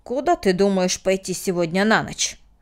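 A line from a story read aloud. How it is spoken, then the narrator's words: Sharp question. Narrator (Russian): резко спросил Мартин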